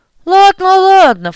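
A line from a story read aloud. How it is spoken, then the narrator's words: Amused snort, smiling. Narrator (Russian): фыркнула улыбающаяся Вербицкая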